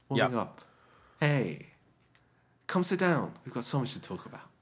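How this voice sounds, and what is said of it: Deep, mellow radio-host voice. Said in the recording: “I am like entering my radio voice. I feel mellowed out ... Like it's you're like flattening it ... Engaging some of the lower timbres of my voice ... Opening up my lower registers”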